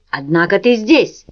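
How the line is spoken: Snapping retort. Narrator (Russian): огрызнулся Джек

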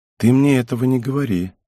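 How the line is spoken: Sad reply. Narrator (Russian): грустно ответила девушка

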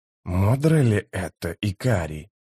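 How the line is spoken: Gentle question. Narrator (Russian): мягко спросил Трель

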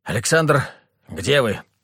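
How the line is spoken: Slightly hoarse. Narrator (Russian): спросил чуть охрипший от команд Роман

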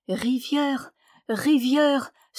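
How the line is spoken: Crying out. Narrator (French): s'écria-t-il

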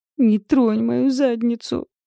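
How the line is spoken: Howling. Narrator (Russian): взвыла я

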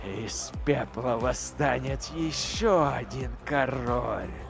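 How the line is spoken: Whispering to himself. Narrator (Russian): прошептал он самому себе

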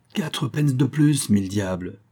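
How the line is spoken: Player's exclamation. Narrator (French): s'écria un des joueurs de cribbage

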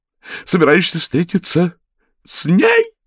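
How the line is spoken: Full-volume speech. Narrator (Russian): Последнее слово было произнесено на полной громкости, затем Эдит шумно разрыдалась

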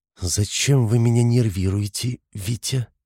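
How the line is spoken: Quiet question. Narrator (Russian): спросила она негромко

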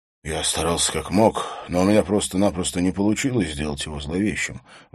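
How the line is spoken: Sighing. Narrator (Russian): вздохнул фотограф

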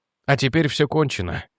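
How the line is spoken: Quiet. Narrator (Russian): тихо сказал Реджи

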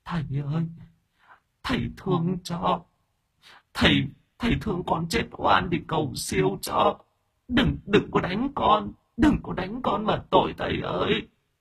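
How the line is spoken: Tearful whimpering. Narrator (Vietnamese): ma nữ mếu máo

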